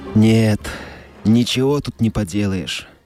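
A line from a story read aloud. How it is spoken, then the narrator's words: Hopeless tone. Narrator (Russian): безнадежным тоном сказал Уидон Скотт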